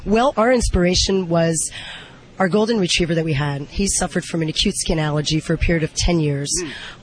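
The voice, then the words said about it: Husky, strained voice. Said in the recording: “with a sexy voice. What's the deal? You been yelling? ... I've been talking up a storm here”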